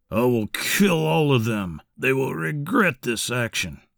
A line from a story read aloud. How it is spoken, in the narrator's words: Charles kept mumbling